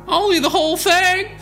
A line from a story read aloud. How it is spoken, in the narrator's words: He yelled